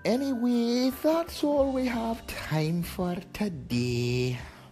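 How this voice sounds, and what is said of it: Miss Doubtfire character voice impression. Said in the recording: “my Miss Doubtfire impression”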